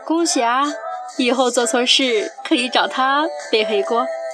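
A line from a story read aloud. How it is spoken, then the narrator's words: Beaming, cheerful. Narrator (Chinese): 观潮眉开眼笑地跟人家说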